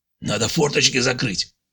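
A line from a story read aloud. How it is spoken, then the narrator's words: Hoarse voice. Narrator (Russian): сипло произнес он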